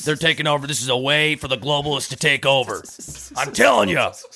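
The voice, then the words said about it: Imitates another person's voice. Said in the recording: “I had to get the Alex Jones out for the day ... you do an Alex Jones impression”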